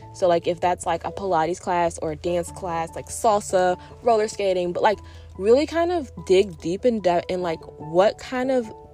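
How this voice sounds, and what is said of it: Out of breath, breathy speech. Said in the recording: “I'm out of breath ... I'm often out of breath”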